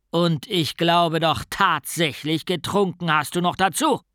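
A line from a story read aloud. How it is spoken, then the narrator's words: Growling. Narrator (German): knurrte er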